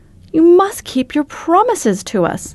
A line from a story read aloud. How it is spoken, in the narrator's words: exclaimed Dorothy